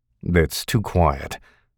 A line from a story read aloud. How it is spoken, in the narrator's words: Will said